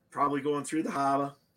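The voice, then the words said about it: Bad put-on Boston accent. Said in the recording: “my Boston accents ... That was brutal.”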